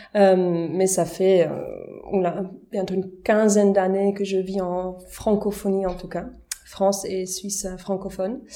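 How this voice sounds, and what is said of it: Slight Swiss-German accent. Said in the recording (French): “il y a un petit accent euh, ... parce que je suis d'origine euh, suisse-allemande”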